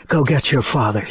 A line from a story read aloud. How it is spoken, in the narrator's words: she said, her voice strangely soft and deflated